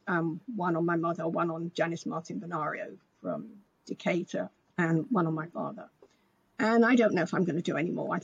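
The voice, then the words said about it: Voice giving out, strained. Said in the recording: “my voice is going”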